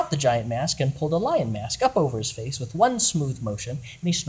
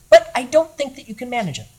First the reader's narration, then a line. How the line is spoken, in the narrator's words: said the goblin hero in a high, crisp voice